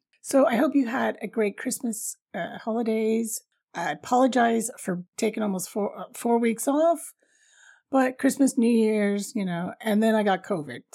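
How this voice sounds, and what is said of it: Raspy voice. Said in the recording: “my voice is raspy now? Well, I sounded like a croaky witch like about a week”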